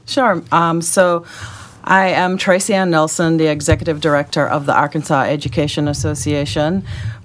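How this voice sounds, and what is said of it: Jamaican accent. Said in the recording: “if they hear a little accent in your voice that comes out from time to time ... My accent is Jamaican.”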